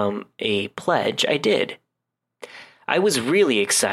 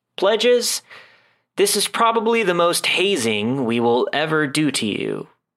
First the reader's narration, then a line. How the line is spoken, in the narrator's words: he said